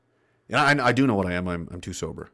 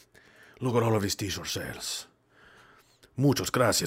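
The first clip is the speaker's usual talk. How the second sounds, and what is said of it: Put-on Spanish-Mexican accent. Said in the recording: “they have a Spanish-Mexican accent ... We're keeping the Spanish one”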